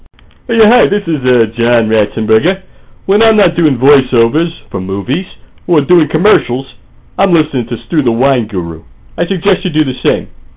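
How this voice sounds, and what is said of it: Imitates another person's voice. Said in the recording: “No actual celebrities were used in the making of this promo, only celebrity impersonators.”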